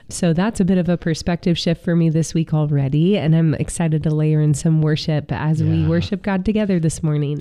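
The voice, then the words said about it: Sick, under-the-weather voice. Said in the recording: “as you can hear in my voice, I could use a little bit of a reset. Just been under the weather this week, trying to fight back a cold.”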